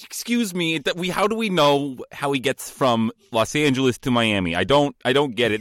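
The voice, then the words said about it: Nerd voice drifting into Goomba accent. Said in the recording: “This was trying to be a nerd voice, but now I'm kind of like a Goomba guy.”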